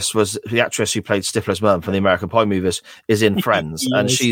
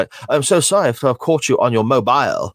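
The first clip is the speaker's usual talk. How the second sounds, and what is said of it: Silly phony British accent. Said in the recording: “she's got a silly voice ... That's how this woman sounds ... she's got such a phony British accent.”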